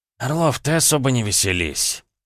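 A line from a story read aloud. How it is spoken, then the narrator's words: Curt rebuke, restrained snort. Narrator (Russian): осадил генерал, сдержанно хмыкнув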